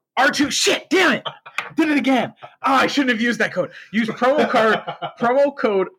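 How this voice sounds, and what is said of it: Usual voice. Nothing is said of it.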